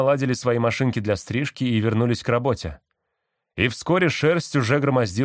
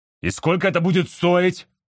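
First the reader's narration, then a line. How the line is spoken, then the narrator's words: Yelled. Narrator (Russian): заорал Роб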